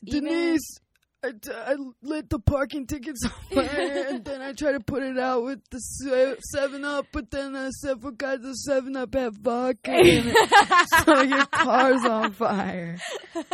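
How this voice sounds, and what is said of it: Imitates another person's voice. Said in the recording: “Is my Horatio Sands impression.”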